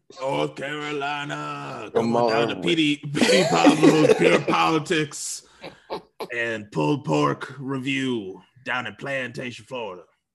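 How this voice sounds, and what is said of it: Imitates another person's voice. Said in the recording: “What is that voice? ... That's like late day Petey Pablo. ... that's like a mix between DMX, Rest His Soul, and Petey Pablo.”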